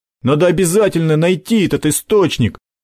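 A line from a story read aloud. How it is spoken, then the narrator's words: Exclamation. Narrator (Russian): воскликнул Макар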